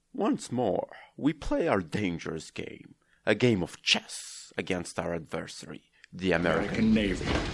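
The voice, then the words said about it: Sean Connery impression. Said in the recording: “I'll try to do Comrade Connery accent. I don't think I'm quite able to pull it off”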